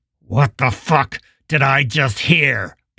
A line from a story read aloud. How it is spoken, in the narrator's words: Pill asked, his jaw clenched so tightly that he thought his teeth might crack